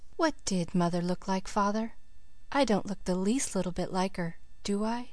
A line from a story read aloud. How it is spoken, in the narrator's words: the Story Girl said, still very softly